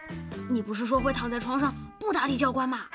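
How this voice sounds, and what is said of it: Quiet, hushed question. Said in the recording (Chinese): “小声地问”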